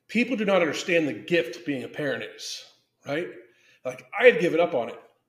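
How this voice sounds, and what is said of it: Choked up, emotional voice. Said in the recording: “I'm getting choked up.”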